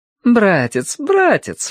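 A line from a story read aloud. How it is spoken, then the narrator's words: Exclaiming. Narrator (Russian): воскликнула она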